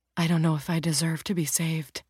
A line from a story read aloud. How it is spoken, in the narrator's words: the bank robber whispered